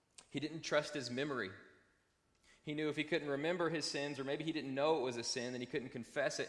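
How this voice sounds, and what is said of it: Slight twang in his accent. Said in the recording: “I've got a little bit of twang in my voice”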